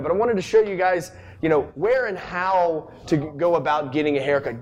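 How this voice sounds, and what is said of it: Talking very loudly. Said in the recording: “I'm talking super loud.”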